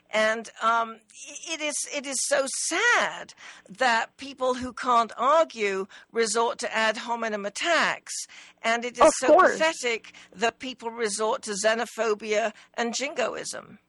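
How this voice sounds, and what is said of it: Noticeable foreign accent. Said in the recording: “perhaps my accent is a little bit less noticeable than yours”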